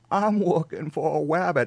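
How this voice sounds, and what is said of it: Weak Elmer Fudd impression. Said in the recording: “I've heard some better Elmer Fudd impersonation.”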